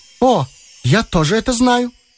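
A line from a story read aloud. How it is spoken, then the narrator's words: Cheerful chiming in. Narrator (Russian): весело подхватила Шурочка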